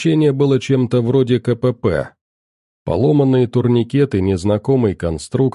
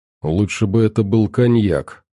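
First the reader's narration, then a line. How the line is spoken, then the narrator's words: Grumbled. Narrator (Russian): проворчал Манул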